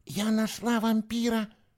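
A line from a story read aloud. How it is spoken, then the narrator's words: Whisper. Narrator (Russian): шептала она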